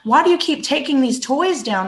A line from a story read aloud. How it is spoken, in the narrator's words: would yell